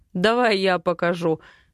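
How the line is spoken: Laughing offer. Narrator (Russian): смеясь, предлагает он

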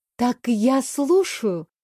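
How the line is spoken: Gentle, smiling. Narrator (Russian): ласково улыбнулась я

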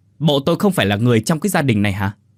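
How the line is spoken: Irritated snapping. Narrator (Vietnamese): Ông Quý gắt lên

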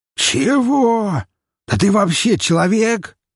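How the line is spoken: Surprised shout. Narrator (Russian): Не скрывая своего удивления, выкрикнул свин

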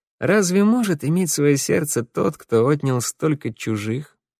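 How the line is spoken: Sighing. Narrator (Russian): Я только вздохнул

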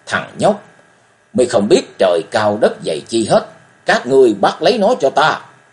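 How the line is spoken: Loud roar. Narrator (Vietnamese): Hoàng Kỳ đàn chủ gầm to

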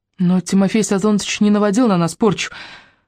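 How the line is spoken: Timid babbling. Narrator (Russian): пролепетала Аллочка

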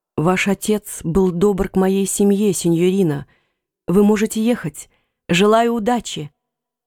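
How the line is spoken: Whisper. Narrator (Russian): он прошептал

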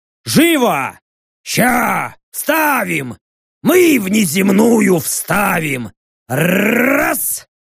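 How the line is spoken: Hurried shout over siren. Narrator (Russian): Взвыла сирена, и я поспешно крикнул

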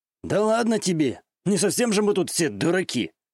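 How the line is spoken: Scoffing. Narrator (Russian): Хмыкнул Камура

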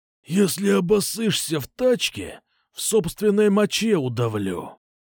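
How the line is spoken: Growl. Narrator (Russian): рыкнул Кукуша

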